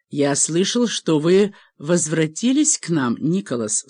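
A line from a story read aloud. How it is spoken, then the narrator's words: Plain. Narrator (Russian): сказал отец Маккэчни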